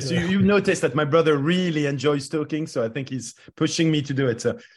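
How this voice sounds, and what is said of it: French accent. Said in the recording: “you're both having French accents ... Our Maurice Chevalier accent”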